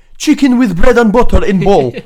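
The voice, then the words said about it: Failed Middle Eastern accent, sounding Russian. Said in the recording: “Why the Russian? ... my failed attempt at a Middle Eastern accent”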